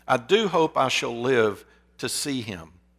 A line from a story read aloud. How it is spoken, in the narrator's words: the young Ernest clapped his hands above his head and exclaimed